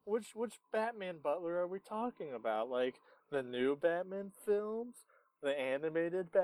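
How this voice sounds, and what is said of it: Usual voice. Nothing is said of it.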